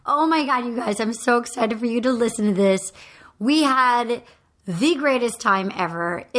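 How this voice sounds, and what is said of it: Hoarse voice. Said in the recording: “sounding really hoarse after a weekend in Nashville”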